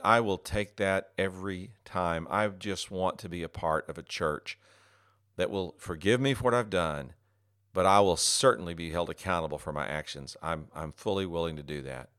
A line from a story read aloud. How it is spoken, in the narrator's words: He exhaled a sigh of relief and said